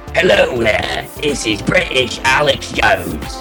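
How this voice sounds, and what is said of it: Put-on British accent. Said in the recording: “Could you do Alex Jones with a British accent?”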